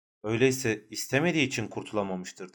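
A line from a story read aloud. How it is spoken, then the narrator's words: Plain. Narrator (Turkish): dedi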